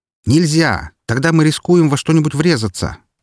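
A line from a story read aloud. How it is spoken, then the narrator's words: Shouted. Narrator (Russian): выкрикнул ей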